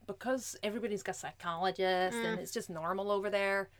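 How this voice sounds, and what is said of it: Poor put-on American accent. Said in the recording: “that was a bad accent.”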